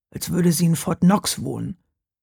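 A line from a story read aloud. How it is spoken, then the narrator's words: Murmured. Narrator (German): murmelte Hauke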